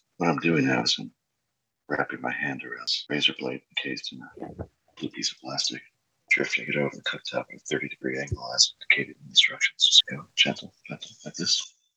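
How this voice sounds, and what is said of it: Calm NPR-style radio narration. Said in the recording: “I could do the NPR voice.”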